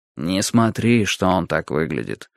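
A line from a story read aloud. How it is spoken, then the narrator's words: Quiet speech. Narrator (Russian): тихонько сказал мне Юрий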